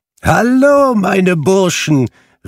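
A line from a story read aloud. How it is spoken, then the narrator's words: Calling out. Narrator (German): rief Fezziwig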